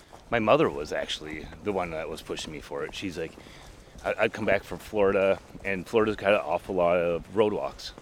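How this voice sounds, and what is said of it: Minnesota accent. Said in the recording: “they all laughed at the way I kept saying I was from Minnesota ... my Minnesota accent”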